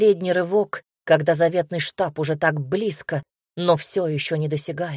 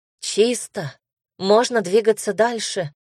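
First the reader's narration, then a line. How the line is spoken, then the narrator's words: Telepathic inner voice. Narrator (Russian): В мыслях раздался голос Хель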